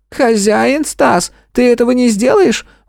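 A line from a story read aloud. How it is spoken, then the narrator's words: Indignant squeak. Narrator (Russian): возмущенно пискнул Харек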